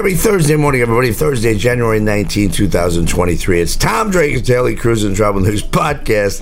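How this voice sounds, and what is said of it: Hoarse voice. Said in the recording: “stop yelling podcast because that makes me cough. Still dealing with the hoarseness in my voice.”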